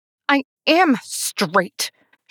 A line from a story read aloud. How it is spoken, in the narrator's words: snapped, the words coming too quickly, too defensively